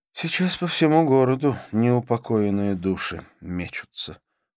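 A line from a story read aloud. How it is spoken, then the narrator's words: Sighing. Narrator (Russian): вздохнула Карла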